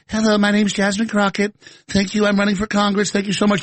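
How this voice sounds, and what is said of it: Jasmine Crockett impression, little white girl voice. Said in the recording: “She talks with a little white girl accent.”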